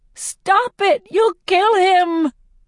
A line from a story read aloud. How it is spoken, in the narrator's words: shriek